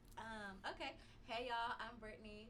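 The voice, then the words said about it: Southern country-sounding accent. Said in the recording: “Oh, that sounded so country. ... I have too many Southern friends. I just pick up their.”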